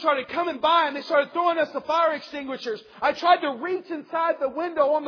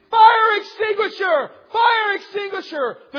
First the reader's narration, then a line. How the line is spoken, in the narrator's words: They started screaming